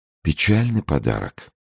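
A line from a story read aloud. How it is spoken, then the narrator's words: Quiet. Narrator (Russian): тихо сказал Арамис Д'Артаньяну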